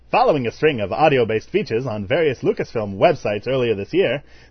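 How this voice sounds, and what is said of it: Announcer-style voice. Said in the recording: “in my announcer voice.”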